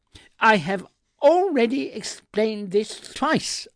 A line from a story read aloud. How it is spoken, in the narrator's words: I snapped